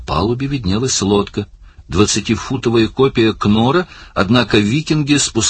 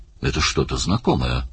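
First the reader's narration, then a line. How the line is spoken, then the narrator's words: Mutter. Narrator (Russian): пробормотал Даллас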